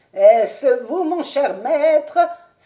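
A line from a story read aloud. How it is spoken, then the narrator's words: Exclaimed. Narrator (French): s'écria-t-il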